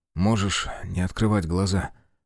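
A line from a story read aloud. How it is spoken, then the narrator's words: Young man's suggestion. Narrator (Russian): предложил парень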